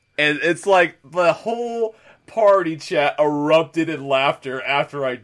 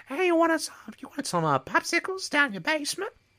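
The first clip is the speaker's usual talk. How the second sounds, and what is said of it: Cartoon character voice impression. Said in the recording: “one of the Family Guy characters ... That's a really good impression”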